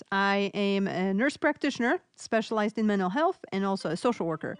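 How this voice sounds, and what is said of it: Polish accent. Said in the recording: “I'm originally from Poland, so hence my accent.”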